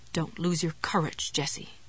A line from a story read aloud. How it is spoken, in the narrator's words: Ruth's voice whispered